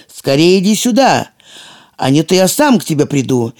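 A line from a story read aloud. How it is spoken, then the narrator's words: Shouting at full strength. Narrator (Russian): Синяя Борода кричал, что было мочи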